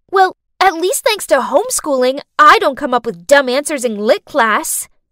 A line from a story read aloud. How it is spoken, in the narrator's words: snapped back